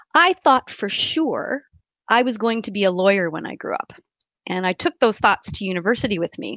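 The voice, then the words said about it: Strong Canadian accent. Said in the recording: “I carry my Canadian accent very proudly ... I still had a very strong Canadian accent ... Apparently, about gives me away.”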